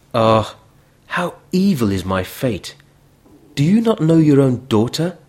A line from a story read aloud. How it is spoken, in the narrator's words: cried